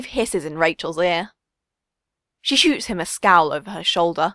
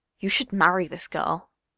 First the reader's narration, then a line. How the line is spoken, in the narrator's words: he mutters